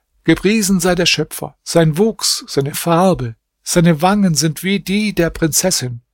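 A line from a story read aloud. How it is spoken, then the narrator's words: Calling out. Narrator (German): rief er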